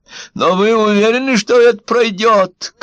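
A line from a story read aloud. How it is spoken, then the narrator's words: Shouted after someone. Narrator (Russian): крикнула вслед Ванда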